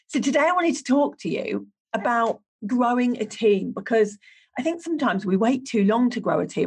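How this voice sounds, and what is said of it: Unsteady voice, sounds like a cold. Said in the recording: “My voice is all over the place today because I caught my second bout of COVID ... what feels like a cold, but my voice comes and goes”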